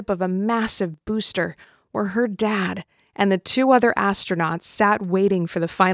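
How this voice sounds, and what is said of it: Usual voice. Nothing is said of it.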